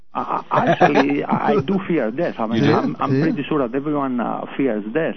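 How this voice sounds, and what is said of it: Greek accent. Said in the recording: “the accent really is more like Ricky Ricardo than it is Transylvanian ... It's South American ... my accent is actually Greek”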